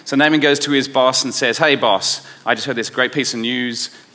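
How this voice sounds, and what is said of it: Australian accent, rough delivery. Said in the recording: “my Aussie accent and my kind of roughness comes out”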